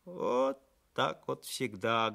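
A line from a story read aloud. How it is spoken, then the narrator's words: Sad. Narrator (Russian): грустно произнес скотник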